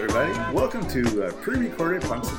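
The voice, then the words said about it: Announcer-style radio voice. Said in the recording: “such a radio voice.”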